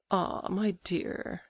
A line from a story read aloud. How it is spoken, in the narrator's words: murmured Mrs